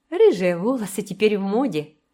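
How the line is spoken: Cold, forced smile. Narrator (Russian): сказала Энн, пытаясь улыбнуться, но все же довольно холодно

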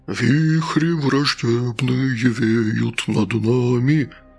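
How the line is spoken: Sepulchral voice. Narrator (Russian): правил Гастон загробным голосом

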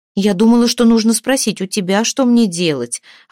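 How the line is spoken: Hurt. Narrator (Russian): обиженно ответила Хлейна

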